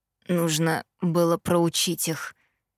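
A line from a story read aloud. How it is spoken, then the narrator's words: Hoarse reply. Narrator (Russian): хрипло отозвался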